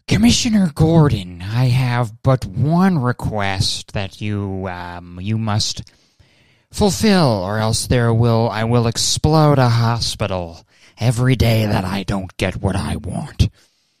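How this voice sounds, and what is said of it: Theatrical supervillain character voice. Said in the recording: “my Batman villain ransom video ... doing a fucking Batman villain impression”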